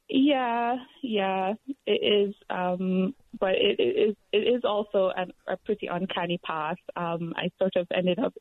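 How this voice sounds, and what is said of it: Jamaican accent. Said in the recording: “from your accent, where are you from? ... I'm from Jamaica.”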